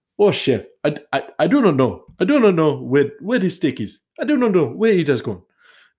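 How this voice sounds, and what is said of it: Put-on African accent. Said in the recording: “That's more African, actually. That's definitely not Indian. ... I can't do an Indian accent right now, so he's going to be African.”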